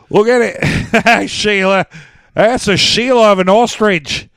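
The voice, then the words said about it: Poor put-on Australian accent. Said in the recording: “that wasn't a good Australian accent”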